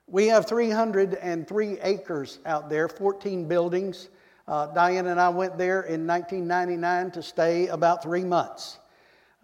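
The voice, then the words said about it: Texan accent with a twang. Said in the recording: “you can tell I'm not from around here. Born and raised in Texas ... This is the way I talk ... never picked up the Georgia accent. I just keep that good old Texas twang”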